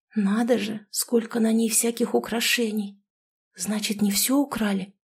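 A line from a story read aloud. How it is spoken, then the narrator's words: Whispered question. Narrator (Russian): шепотом спросила я Полину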